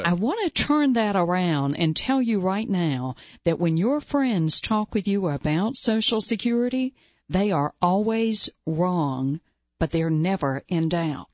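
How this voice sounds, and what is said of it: Slight Southeastern US accent. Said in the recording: “I do have a little bit of an accent here. I'm from the southeastern United States.”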